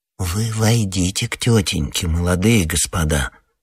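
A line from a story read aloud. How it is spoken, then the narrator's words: Slow quiet persuading. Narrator (Russian): Во второй раз неторопливым тихим голосом убеждал подошедший к мальчикам коридорный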